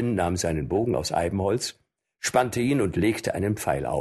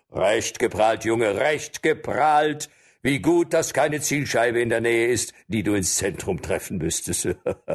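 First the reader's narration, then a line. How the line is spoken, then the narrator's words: Mocking reply amid loud laughter. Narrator (German): Die Förster lachten laut und einer erwiderte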